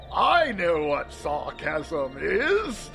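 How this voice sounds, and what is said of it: Exaggerated sarcastic tone. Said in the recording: “This is what I sound like when I use sarcasm.”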